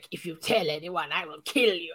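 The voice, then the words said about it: Over-the-top, artificial dramatic voice. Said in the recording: “That was a terrible impression ... It sounds very artificial. It sounds very over the top.”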